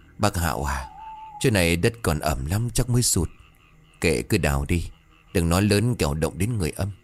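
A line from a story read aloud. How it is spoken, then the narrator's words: Trembling. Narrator (Vietnamese): Thiêm bấy giờ run rẩy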